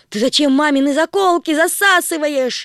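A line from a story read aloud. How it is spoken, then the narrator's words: Shouting. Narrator (Russian): закричала Агата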